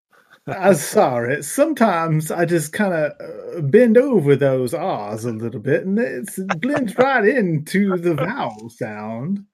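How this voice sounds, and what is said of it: Southern American accent. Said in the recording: “my southern accent canceling out that R”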